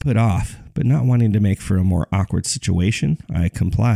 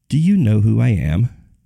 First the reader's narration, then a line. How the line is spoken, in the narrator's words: asked warmly